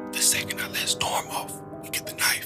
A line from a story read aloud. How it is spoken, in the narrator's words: whispered